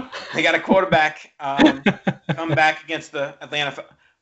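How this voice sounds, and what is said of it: Bad put-on Chicago accent. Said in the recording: “My Chicago accent is terrible.”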